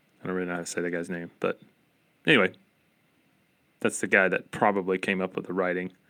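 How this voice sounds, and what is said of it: Appalachian American accent. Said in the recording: “because of my Appalachian American accent, it sounds like I'm saying Dorita, like Dorito with an A”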